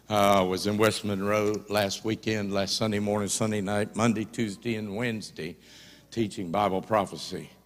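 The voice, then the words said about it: Slightly sore, hoarse voice. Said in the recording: “My voice is a little sore ... that sure does help my sore throat”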